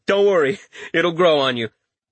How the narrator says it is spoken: He laughed and said

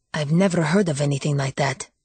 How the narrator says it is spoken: murmured Mark

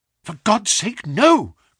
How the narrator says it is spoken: cried Bennett

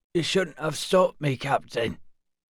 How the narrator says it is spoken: he croaked

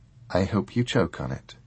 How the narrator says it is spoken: she said flatly

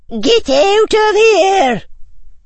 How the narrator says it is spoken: roared Professor McGonagall

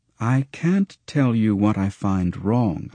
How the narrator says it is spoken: I replied

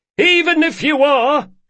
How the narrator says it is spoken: shouted Carlo

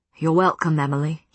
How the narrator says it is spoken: he said, his voice irresistibly warm and rich

